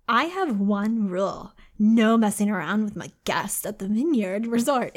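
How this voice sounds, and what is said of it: Exaggerated stereotyped gay voice. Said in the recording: “do a gay voice. ... Is that a good gay voice or is that more Valley?”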